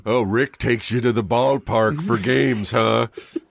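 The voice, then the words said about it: Gruff Minnesota tough-guy character voice. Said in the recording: “that's you doing that voice sounds like James Adomian doing Jesse Ventura. Almost exactly ... Minnesota”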